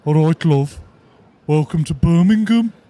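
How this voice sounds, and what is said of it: Put-on Birmingham accent. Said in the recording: “That's one of your better accents, actually. So far, it's still time for it to fall apart. ... it's already tailing off. ... Have you got it solely based on Peaky Blinders”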